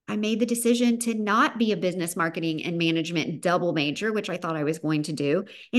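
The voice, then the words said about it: Thick Southern American accent. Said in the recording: “my very thick Southern accent”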